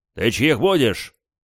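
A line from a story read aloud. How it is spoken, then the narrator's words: Barked. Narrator (Russian): рявкнул я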